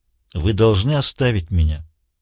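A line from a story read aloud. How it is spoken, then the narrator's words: Calm speech. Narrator (Russian): спокойно произнес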